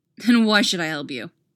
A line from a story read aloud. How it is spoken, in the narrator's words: He barks out, fighting down the urge to pull the trigger